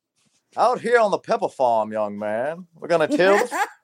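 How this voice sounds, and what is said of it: Old Southern debutante accent. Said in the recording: “he's got that old Southern debutante accent”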